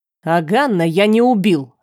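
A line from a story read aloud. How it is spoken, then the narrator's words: Sharp. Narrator (Russian): резко сказал Керна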